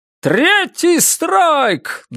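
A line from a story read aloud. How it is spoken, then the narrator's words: Shouting into microphone. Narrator (Russian): Джо кричал в микрофон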